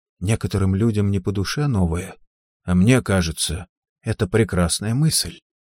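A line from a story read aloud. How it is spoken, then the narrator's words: Quiet. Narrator (Russian): Торгунна тихо сказала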